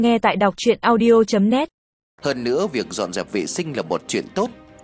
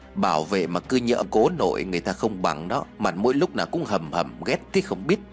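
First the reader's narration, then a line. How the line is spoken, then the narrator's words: Muttering. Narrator (Vietnamese): Tiên lẩm bẩm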